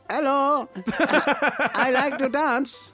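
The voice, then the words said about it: Put-on Mexican accent. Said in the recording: “You can't do any accents. Go on, do your Mexican.”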